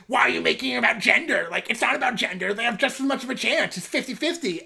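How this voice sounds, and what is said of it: Terrifying impression of online man. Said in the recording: “your voice is terrifying. I love it. It's a great voice impression of the online man.”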